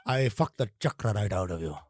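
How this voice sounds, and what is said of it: Put-on Indian accent. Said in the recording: “chakras is an Indian thing ... say them with the correct accent”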